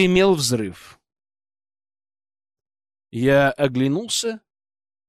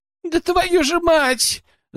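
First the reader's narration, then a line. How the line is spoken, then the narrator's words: Squealed. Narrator (Russian): запищал Кленовый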